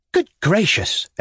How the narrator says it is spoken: exclaimed the lady

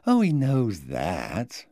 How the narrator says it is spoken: mocking me

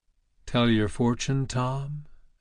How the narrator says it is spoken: asked Douglas quietly

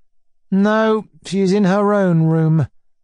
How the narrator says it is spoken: Mizinchikov answered dryly

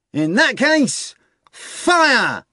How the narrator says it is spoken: cried Azazello

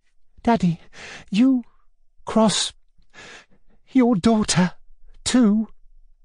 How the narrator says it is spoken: brought out in a gasping voice

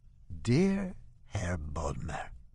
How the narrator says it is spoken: he says in an injured voice

